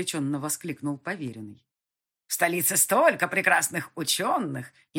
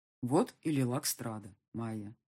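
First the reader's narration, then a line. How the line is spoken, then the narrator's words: Quiet remark. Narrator (Russian): негромко заметил полковник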